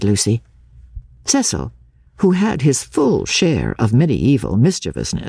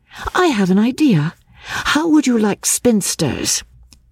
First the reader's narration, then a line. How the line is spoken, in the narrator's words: she exclaimed